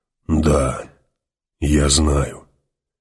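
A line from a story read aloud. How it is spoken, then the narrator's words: Breathed out, finally. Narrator (Russian): выдохнул наконец Халлик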